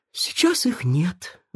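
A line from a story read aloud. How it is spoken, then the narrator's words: Sighing. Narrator (Russian): вздохнул Мафусаил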